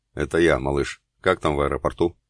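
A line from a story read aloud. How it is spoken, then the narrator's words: Deep, low, curt voice. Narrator (Russian): глубоким низким голосом отрывисто сказал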